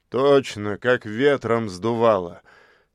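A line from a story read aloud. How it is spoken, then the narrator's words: Laughing. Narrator (Russian): рассмеялся Злыдень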